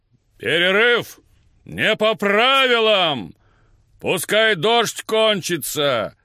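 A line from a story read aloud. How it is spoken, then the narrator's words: Booming from behind. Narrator (Russian): прогремело позади меня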